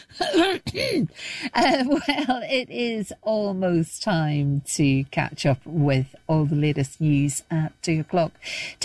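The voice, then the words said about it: Strained, failing voice. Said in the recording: “I think I'm losing my voice.”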